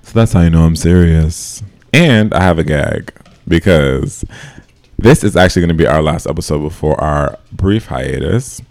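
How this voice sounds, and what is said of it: Deep, sultry voice. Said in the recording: “my voice is now deep and sexy”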